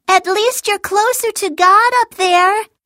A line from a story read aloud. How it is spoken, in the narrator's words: Haley called out